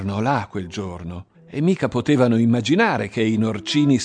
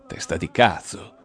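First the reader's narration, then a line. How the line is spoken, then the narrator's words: Bitter, embittered hiss. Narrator (Italian): sibilava Guarnieri, che era il più incarognito di tutti per via del padre ammazzato dai fascisti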